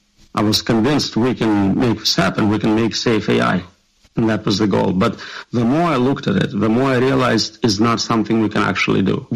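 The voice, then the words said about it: Slight foreign accent. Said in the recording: “It has a little accent, but it's nothing serious.”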